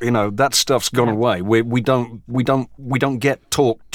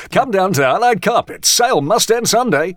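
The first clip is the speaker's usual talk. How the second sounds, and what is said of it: Old-style advertising announcer voice. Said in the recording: “the announcer voice.”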